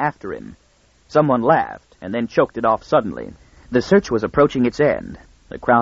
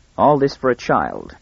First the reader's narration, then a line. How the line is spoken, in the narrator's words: he said